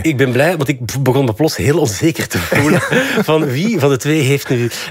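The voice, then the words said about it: Antwerp Borgerhout Flemish accent. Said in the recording (Dutch): “mijn Borgerhoutse accent”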